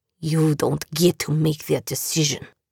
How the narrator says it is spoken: Ivan snarled

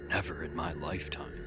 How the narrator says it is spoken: Bob whispered

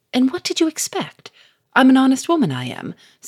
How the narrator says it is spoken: said Victor sharply

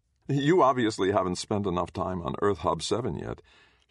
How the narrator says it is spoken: Sharon laughed

